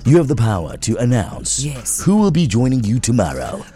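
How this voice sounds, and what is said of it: 90s radio announcer voice. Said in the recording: “I'm using my 90s radio voice.”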